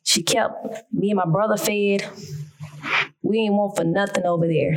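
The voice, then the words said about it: Country accent. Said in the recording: “I'm country. Y'all gonna have to work with me in my accent.”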